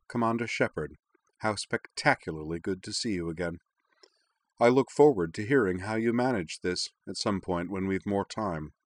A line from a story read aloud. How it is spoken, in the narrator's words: smiled calmly and remarked